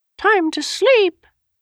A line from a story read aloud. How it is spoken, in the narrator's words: Enyan chirped